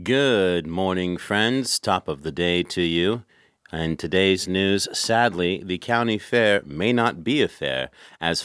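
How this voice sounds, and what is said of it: Mock newscaster voice. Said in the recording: “Let's pretend to be newscasters right now.”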